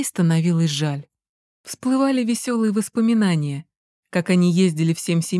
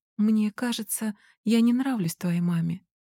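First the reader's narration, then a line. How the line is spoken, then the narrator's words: Quiet, young woman. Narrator (Russian): тихо говорила темноволосая барышня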